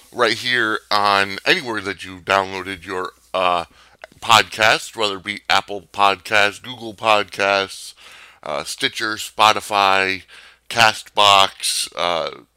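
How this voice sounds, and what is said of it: Slightly rough, strained voice. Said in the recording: “my voice is a little out of it. Been under the weather the past couple days ... It takes a toll on your voice box”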